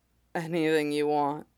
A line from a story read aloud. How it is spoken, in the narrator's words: he murmured